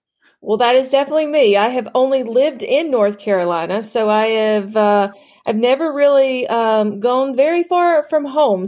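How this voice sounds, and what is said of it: Southern American accent. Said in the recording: “I absolutely love your accent ... designing women”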